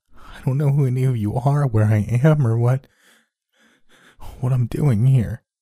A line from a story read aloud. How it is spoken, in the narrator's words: he said with heavy sobs in between each word